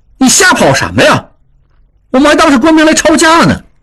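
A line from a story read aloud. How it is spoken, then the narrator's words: Loud scolding. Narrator (Chinese): 应英也大声呵斥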